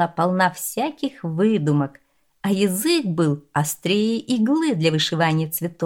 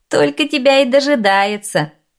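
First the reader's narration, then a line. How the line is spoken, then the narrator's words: Laughing male companion. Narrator (Russian): засмеялся один из спутников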